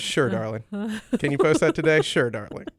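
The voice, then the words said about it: Impression of the co-host. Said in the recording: “That's a good impression of me.”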